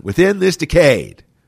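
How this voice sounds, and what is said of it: John Kennedy impression, East Coast accent. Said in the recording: “I always love to do this impersonation ... I love the way he said decade. He had that East Coast accent.”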